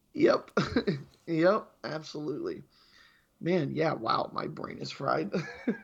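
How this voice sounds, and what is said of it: Rough, strained sick voice. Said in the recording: “my voice sounds a little bit better. I know it's still trash, but I am getting a little bit better every day.”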